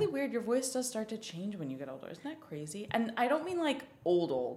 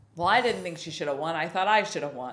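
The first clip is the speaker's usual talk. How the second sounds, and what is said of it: Imitated generic older person's voice. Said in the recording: “That was a good impression. ... That was just an impression of like a general older person.”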